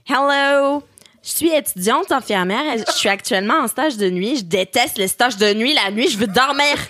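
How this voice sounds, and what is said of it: Put-on Québécois French accent. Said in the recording (French): “T'aurais dû le lire quand même avec l'accent québécois ... je ferai le prochain commentaire en accent québécois”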